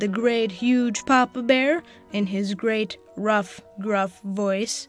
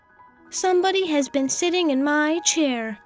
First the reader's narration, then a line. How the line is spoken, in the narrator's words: said the middle-sized Mama Bear in her middle voice